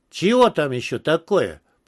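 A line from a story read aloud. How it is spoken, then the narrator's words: Grumbled. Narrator (Russian): проворчал пересмешник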